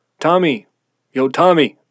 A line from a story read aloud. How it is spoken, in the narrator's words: the shouts were coming from